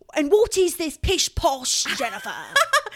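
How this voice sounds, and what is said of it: Put-on British accent. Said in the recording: “I don't know why I give her a British accent, but she's like British to me.”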